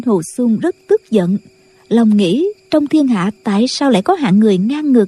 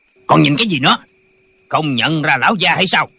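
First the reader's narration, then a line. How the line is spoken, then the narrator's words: Official shouting. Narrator (Vietnamese): Viên quan quát lên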